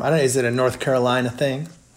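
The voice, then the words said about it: Put-on Southern US accent, not authentic. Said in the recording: “how was my North Carolina accent? Probably not very authentic. It's probably somewhere Virginia.”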